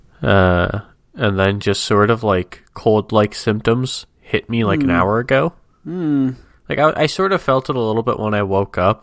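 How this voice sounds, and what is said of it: Tired, stuffy congested voice. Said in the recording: “I sound a little tired and a little stuffy”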